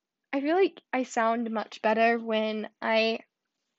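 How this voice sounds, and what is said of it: Usual voice. Nothing is said of it.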